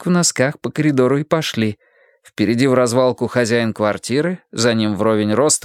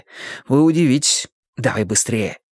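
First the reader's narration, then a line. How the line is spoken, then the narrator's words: Hissing. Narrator (Russian): зашипел он мне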